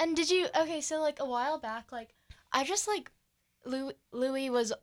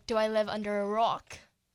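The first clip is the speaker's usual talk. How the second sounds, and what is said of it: Imitates another person's accent. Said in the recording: “With the accent. ... Thank you for that accent.”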